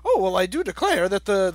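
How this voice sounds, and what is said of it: Affected pompous smart-guy voice. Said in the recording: “talks like Beast does in the 60s X-Men comics ... that's my impression of a smart guy”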